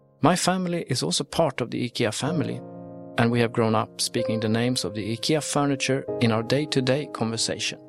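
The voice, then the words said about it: Swedish accent. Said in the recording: “As you can tell by my voice, I am Swedish”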